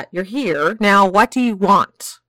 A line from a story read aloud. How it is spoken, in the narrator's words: Ian spat